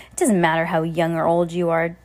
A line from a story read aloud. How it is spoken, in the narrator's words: Danny spat out